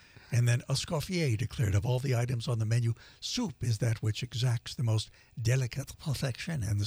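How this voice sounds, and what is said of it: Usual voice. Nothing is said of it.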